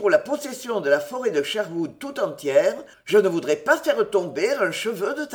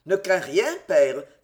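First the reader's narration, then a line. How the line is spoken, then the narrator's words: Child, tender exclamation. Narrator (French): s'écria l'enfant avec tendresse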